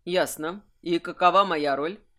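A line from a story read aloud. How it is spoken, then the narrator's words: Very even-toned question. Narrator (Russian): спросил Кайфат максимально ровным тоном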